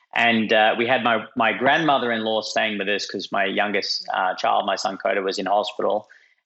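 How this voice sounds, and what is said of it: Australian accent. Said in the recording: “as you can tell from my funny accent, I'm, I'm Australian”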